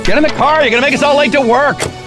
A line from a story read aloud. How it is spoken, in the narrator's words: someone yelled